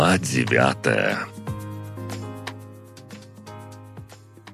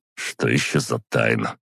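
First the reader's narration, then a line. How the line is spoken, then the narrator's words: Snort. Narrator (Russian): Шарфиков фыркнул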